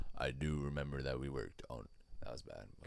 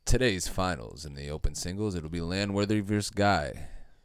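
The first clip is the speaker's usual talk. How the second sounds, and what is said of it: Announcer-style radio voice. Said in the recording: “radio voice ... Could you announce this?”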